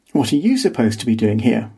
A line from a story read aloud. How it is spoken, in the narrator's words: I asked